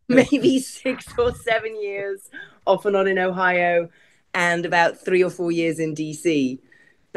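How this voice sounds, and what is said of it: English accent with slight American tinge. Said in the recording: “that accent's a little messed up... I hear a little Ohio in that accent”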